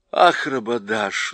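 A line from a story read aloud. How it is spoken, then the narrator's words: Sigh. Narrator (Russian): вздохнула Люси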